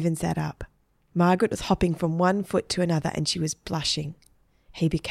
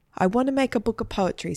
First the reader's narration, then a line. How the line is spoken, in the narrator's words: said Margaret